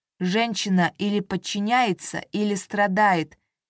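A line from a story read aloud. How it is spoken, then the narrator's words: Plain. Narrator (Russian): говорит отец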